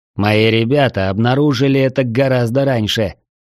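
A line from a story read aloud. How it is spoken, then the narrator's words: Mocking. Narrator (Russian): насмешливо возразил боцман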